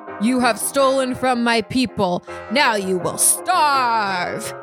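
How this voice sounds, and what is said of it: Deep-voiced king character voice. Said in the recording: “says in a deep voice”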